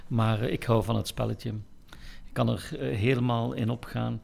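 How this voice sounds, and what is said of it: Ghent regional Flemish accent. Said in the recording (Dutch): “een fanatiek supporter van Agent. Eh, en dat hoor je aan mijn accent ongetwijfeld.”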